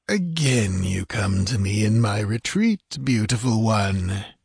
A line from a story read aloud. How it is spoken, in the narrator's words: he purred with cynical hypocrisy